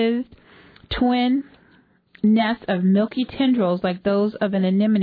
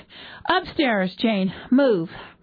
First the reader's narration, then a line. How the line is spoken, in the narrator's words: John panted